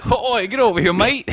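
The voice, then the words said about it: Put-on Australian accent. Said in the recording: “Can you say that in an Australian accent?”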